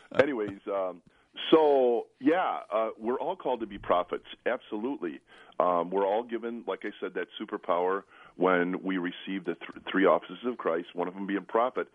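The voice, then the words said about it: Very deep, rough sick voice. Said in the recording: “I sound like Darth Vader right now. I'm emerging from a flu bug, and my voice is down here.”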